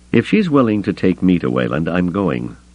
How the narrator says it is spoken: Luke added firmly

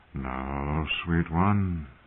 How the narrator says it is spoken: murmured

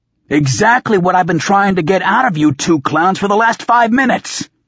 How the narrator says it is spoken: I bellowed

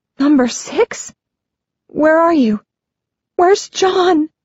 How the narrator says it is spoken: she asks, her voice shaking

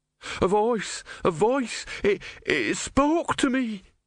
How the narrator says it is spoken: wailed

